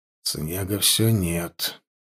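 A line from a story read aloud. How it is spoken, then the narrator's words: Mutter. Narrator (Russian): пробормотал он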